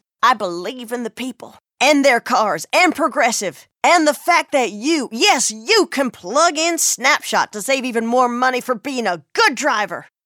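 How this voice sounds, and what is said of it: Imitates a politician's voice. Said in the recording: “my impression of a politician”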